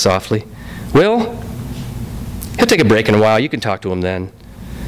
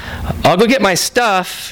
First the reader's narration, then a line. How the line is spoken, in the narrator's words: he called out